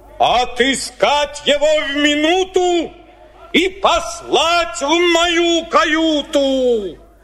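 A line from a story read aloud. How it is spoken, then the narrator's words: Angry shout, whale. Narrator (Russian): Кит во гневе закричал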